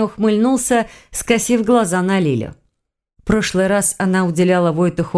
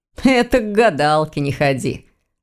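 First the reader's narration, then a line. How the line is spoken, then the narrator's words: Laughing. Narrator (Russian): рассмеялся Ваня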